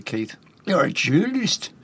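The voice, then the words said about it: Put-on Newcastle accent. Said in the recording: “That's my Newcastle accent... It'll do. It's not easy.”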